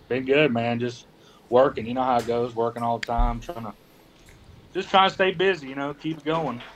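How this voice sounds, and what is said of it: Slight Southern drawl. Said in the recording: “a little bit of your southern drawl”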